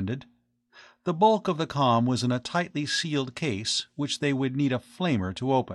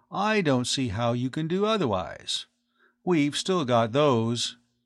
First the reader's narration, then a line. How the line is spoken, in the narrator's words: the other added coolly